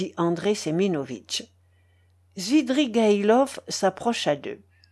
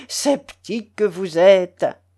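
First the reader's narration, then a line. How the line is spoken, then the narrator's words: Laughing reply. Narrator (French): répondit en riant Svidrigaïlov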